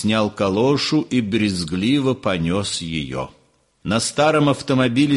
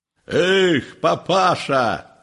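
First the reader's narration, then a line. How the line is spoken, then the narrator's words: Low hoarse shout. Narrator (Russian): крикнула она низким сиповатым голосом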